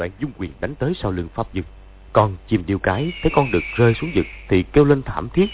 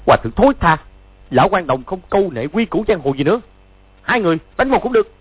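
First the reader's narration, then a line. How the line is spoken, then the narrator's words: Furious shout. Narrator (Vietnamese): Chu Bá Thông cả giận quát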